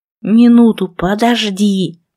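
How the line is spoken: Hiss. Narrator (Russian): прошипел он

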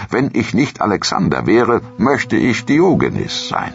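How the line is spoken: Exclaiming. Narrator (German): rief er aus

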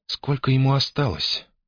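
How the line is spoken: Even-voiced question. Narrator (Russian): ровным голосом спросила она

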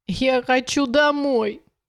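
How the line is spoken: Whimpering queen. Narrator (Russian): хныкала королева

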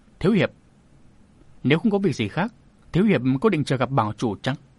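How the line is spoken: Suddenly cold. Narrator (Vietnamese): Giọng Nương Nương bỗng trở nên lạnh lùng

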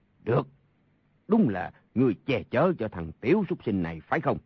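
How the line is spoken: Angry. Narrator (Vietnamese): Sa Thông Thiền tức giận nói

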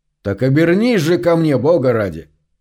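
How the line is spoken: Stern command. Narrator (Russian): строго приказал Гарри

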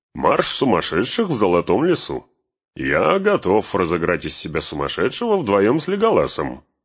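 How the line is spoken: Cheerful. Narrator (Russian): добавил он весело

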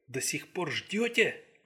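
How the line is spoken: Astonished whisper. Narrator (Russian): прошептал пораженный Дилрей

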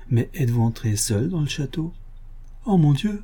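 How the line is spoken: Shy child murmuring. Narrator (French): murmura l'enfant, que la timidité empêchait de parler

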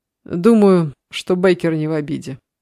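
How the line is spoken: Laughing. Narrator (Russian): засмеялся Эд

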